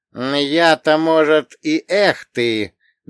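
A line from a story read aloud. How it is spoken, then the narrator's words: Slow speech. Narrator (Russian): медленно проговорил Изава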